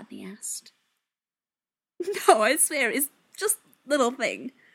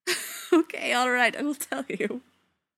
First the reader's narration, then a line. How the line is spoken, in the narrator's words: Zelenka said, still suppressing the odd giggle